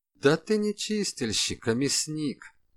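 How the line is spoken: Calm declaration. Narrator (Russian): спокойно заявила тень

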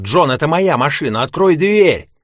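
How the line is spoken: Shouting. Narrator (Russian): кричал

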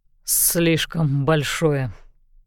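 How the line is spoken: Hoarse. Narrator (Russian): хрипло сказал

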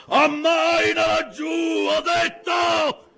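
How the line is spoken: Thunderous command. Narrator (Italian): Tale fu il tuono della sua voce

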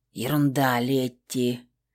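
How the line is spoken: Hoarse mutter. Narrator (Russian): хрипло пробормотала, только чтобы слышать свой голос

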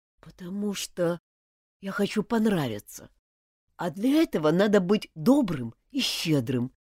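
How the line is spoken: Quiet. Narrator (Russian): тихо сказал Мартин

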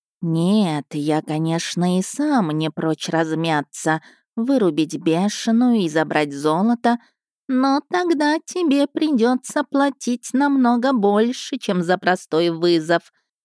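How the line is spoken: Lazy. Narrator (Russian): лениво продолжил Ко Перцалькоатль

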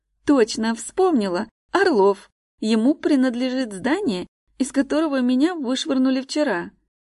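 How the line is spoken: Joyful. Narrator (Russian): радостно сообщает она

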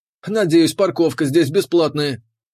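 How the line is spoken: Nervous grumble. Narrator (Russian): проворчал капитан, нервно

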